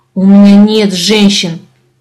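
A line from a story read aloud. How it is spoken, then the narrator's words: Growl. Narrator (Russian): прорычал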